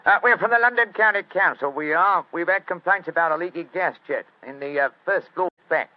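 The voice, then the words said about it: Put-on Cockney accent. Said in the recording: “My Cockney accent doesn't compare with yours.”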